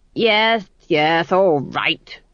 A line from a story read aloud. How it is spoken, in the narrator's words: snapped Lord Felmet